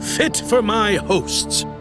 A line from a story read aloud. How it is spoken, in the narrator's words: he boomed